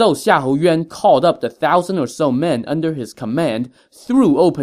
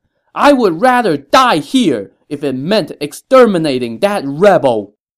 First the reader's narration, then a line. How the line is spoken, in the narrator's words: he flew into a rage and cried out